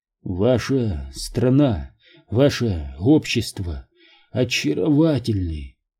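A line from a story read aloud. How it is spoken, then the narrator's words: Hoarse wheezing whisper. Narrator (Russian): Его хватало только на хриплый, сипящий шепот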